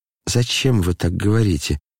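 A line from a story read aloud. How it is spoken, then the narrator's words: Muttering. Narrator (Russian): бормотал он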